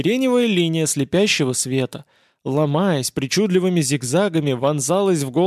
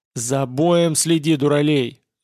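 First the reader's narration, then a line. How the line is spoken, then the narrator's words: Angry bark. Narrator (Russian): зло рявкнул Геллерт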